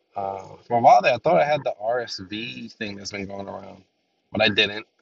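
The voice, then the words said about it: Nasal, congested voice from cold. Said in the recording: “issues with my throat, my voice... a bad cold... I still a little bit nasally”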